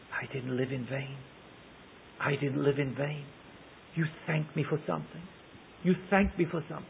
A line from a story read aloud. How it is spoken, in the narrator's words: he heard her whisper